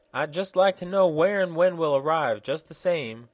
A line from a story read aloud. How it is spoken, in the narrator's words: exclaimed the little girl